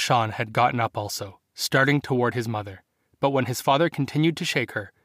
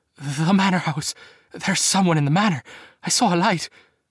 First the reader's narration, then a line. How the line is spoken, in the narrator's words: she managed enough breath to gasp